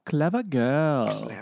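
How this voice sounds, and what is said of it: Impression of a film character. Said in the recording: “This is my impression.”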